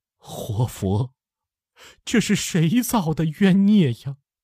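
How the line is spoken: Despairing bitter laugh. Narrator (Chinese): 他 绝望的 惨笑一声

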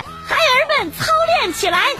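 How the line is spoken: Shouting. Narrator (Chinese): 他就喊

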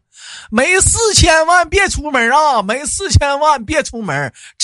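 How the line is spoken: Shouting through loudspeaker. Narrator (Chinese): 扯个扯个喇叭就在那喊

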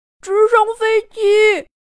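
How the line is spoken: Straining tiny shout. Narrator (Chinese): 小苍蝇用尽力气喊了一句

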